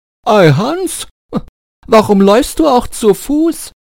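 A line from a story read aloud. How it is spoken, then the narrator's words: Called out. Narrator (German): Der Reiter rief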